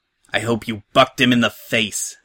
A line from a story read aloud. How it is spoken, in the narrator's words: I hiss in disgust